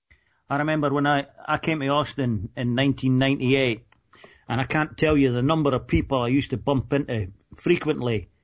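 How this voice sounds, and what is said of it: Scottish accent. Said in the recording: “thought I was Australian because of my accent ... how the hell can you mistake a Scottish accent for an Australian accent?”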